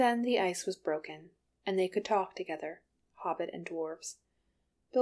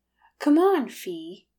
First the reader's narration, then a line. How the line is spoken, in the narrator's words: Keeley cried